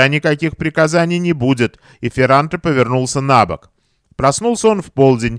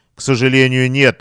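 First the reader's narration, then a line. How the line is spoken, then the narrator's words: Laughing. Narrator (Russian): рассмеялся Арсини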